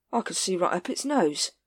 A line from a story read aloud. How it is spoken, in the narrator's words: said Captain Vimes dreamily